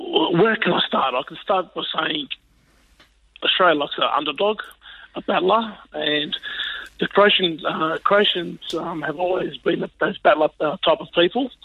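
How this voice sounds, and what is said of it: Hoarse, strained voice. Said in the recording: “you can tell by my voice, I've lost my voice ... I've been using my voice pretty loudly and proudly”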